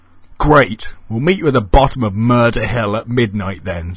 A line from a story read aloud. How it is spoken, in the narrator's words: said Donna excitedly